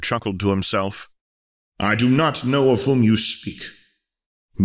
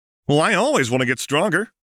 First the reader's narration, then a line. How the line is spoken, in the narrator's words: exclaimed Goku